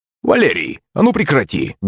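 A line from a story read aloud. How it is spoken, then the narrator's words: Barked shout. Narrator (Russian): гаркнул Березин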